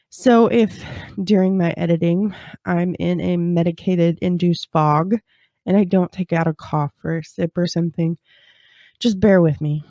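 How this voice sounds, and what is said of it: Nasal, congested voice. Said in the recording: “I'm a little nasally. ... I have a little bit of a cold. ... this head cold”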